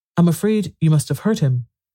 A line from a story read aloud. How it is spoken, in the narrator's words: she said in a trembling voice